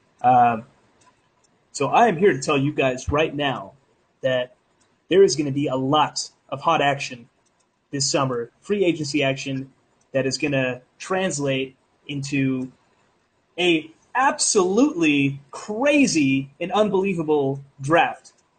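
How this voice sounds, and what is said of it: Imitates a sports pundit's hot-take voice. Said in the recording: “Skip Bayless-type hot take ... my best Skip impression”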